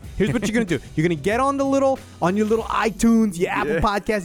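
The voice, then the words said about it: Exaggerated tough-guy New York accent. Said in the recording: “What is this accent? Is your alpha male? ... Testosterone accent. ... Is there testosterone in New York's water? Is that why they all talk like that? ... that's how real men talk.”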